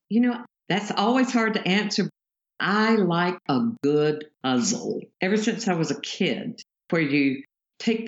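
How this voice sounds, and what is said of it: Lyrical Southern US accent. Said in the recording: “those South accents. They sound absolutely lyrical. ... magnolia mouth”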